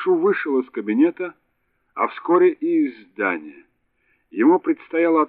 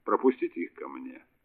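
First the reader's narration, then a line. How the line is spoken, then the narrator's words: Plain. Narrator (Russian): сказал Кеттерле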